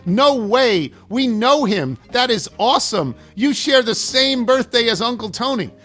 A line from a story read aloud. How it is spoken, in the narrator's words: the 12-year-old also shouts